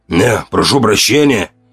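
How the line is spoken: Hoarse, forced politeness. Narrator (Russian): выдохнул он, в его хриплом голосе появилась вынужденная, почти официальная вежливость

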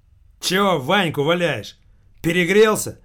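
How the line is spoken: Barked. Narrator (Russian): вновь рявкнул человек из

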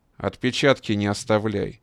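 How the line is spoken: Plain, paratrooper. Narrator (Russian): сказал десант

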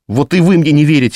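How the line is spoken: Desperate cry. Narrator (Russian): в отчаянии выкрикнула Катя

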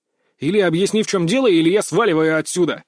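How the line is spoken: Breathless shout. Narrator (Russian): Запыхавшись, крикнул

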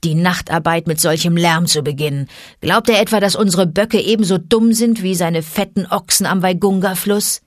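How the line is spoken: Wolf growling. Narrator (German): knurrte Vater Wolf

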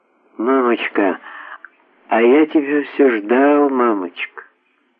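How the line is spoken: Sleepy child's voice. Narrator (Russian): Мальчуган сонным голосом промолвил

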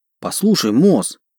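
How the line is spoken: Pleading. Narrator (Russian): взмолился я

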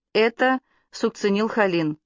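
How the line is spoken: Calm announcement. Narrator (Russian): спокойно объявил доктор

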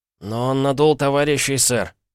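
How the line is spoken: Two voices grumbling in unison. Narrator (Russian): проворчали в один голос Сиггерс и Типпинг

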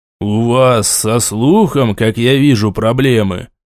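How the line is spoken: Through gritted teeth. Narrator (Russian): сквозь зубы процедил мне Элтинор

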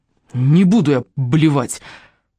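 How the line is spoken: Furious hiss. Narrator (Russian): прошипел Райан с нетипичной для него яростью

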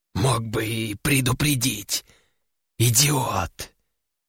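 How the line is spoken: Hissed. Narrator (Russian): прошипел тот

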